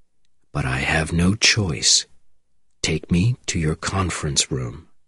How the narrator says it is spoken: he said quietly

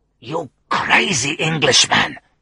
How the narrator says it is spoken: hissed

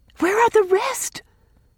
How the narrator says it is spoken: gasped Rilla

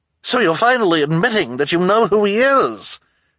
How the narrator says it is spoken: she cried triumphantly

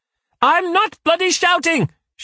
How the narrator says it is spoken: she shouts

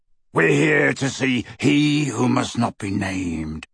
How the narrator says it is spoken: rasped Greyback

